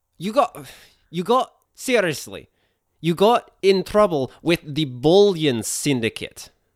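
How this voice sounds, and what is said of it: Put-on Russian accent. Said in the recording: “This is becoming Russian. ... I learned this accent last night.”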